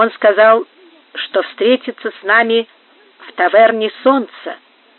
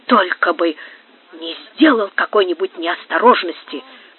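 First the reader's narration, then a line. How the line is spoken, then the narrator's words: Whisper. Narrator (Russian): прошептал Мендири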